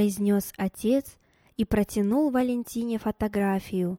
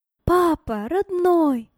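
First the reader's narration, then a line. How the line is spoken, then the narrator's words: Loud exclamation, tearful. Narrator (Russian): громко воскликнула она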